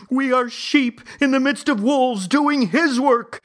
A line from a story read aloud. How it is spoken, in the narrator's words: Mom shouting